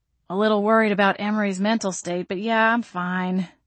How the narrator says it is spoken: I grumbled

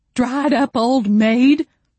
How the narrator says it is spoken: Ruthie yelled

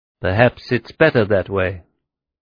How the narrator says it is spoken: Himmler said, his voice betraying no emotion whatsoever

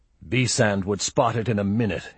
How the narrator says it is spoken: he grumbled

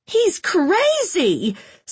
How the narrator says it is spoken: somebody yelled

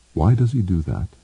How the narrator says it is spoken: asked Ender quietly

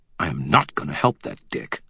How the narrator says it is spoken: I snarled

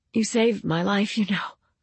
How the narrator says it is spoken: she said hoarsely

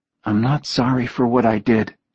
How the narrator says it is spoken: she said softly

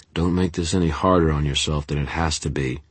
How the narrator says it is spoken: Denton said, his voice toneless

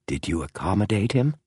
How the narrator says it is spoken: whispered James

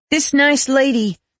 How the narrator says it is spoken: says Lori Longgren, raising her voice to compete with the chopper, but letting no quiver of fear taint her words

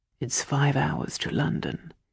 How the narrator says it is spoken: he whispered in my ear

